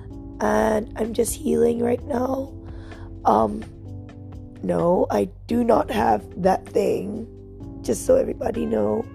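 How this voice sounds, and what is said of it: Sick, unwell-sounding voice. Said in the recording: “As you can hear from my voice, I'm not feeling well.”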